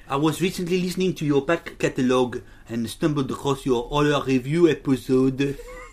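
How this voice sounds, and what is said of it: Bad put-on French accent. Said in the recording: “Preferably read in a French accent ... That's terrible.”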